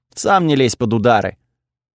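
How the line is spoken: Snort as if speaking. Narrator (Russian): фыркнула, окатив меня паром из ноздрей, будто сказала

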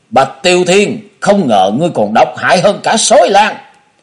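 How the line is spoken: Furious howl. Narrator (Vietnamese): Tức giận gào lên

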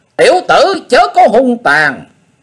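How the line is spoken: Piercing tearing scream. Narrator (Vietnamese): Phụng Hoàng Ma Cơ thét như lụa xé

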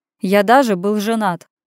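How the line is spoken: Almost carefree. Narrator (Russian): почти беззаботно поделился я

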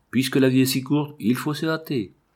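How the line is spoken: Exclaimed. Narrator (French): Il s'écria comme Trimalcion

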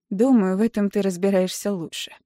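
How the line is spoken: Dry reply. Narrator (Russian): сухо отвечаю я

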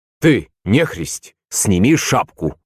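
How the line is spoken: Rude male voice. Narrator (Russian): сказал он грубо

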